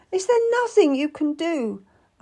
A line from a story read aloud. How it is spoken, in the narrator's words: asked desperately